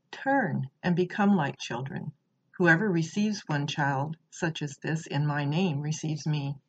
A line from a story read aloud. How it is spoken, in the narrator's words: Jesus gently say